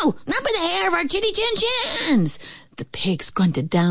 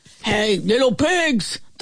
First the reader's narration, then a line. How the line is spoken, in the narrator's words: the wolf bellowed